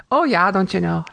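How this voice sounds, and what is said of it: Exaggerated Fargo North Dakota accent. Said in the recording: “I love that accent ... making fun of it, it actually starts coming out, coming out more pronounced ... Fargo accent”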